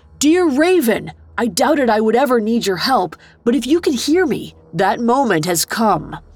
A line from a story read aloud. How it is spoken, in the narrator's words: yelled as loudly as he could